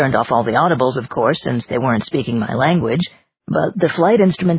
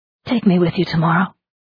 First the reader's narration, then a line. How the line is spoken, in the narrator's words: Martha said breathlessly